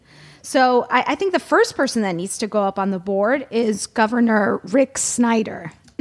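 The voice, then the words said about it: Hoarse, strained voice. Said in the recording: “I'm sorry, I'm losing my voice.”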